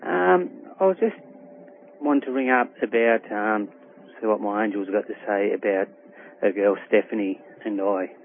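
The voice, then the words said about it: Slight Australian accent. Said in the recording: “You have a little accent, or I have one, right?”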